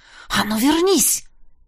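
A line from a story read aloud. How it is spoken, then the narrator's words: Furious involuntary growl. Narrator (Russian): я до того рассвирепел от их упрямства, что непроизвольно рыкнул про себя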